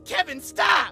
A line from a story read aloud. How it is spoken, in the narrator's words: I shouted